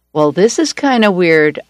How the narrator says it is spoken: I chuckled

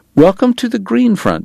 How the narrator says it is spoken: Bat said tightly

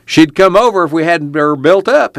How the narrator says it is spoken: he cried

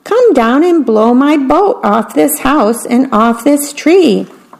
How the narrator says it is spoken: shouted the mouse

